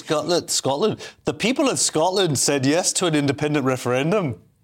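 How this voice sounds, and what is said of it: Poor attempt at Scottish accent. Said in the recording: “Oh, you're going to do a Scottish accent? ... I don't know what that was, but A for effort”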